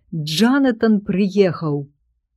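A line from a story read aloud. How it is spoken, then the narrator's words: Shouting over loud noise. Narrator (Belarusian): Гаспадар двара крычаў так, каб перакрычаць усіх у гэтым шуме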